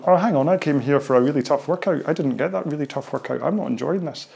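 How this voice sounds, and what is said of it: Mock whiny impression of listener. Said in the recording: “I'm hoping that's not a very good impression of your voice.”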